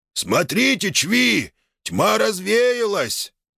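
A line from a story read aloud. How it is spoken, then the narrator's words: Shout from behind. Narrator (Russian): крикнул кто-то сзади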